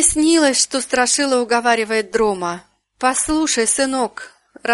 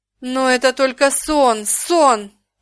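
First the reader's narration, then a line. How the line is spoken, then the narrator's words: Groan. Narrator (Russian): простонал король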